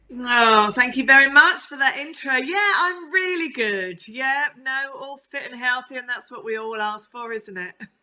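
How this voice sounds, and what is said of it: Essex accent. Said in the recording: “from the Essex twang”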